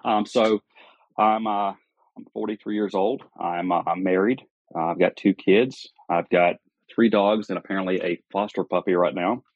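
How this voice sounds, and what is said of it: Southern American accent. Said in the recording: “If you couldn't tell by my accent, I'm a Southerner.”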